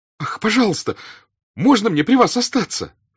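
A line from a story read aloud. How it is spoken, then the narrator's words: Sudden cry. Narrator (Russian): вскрикнул Петя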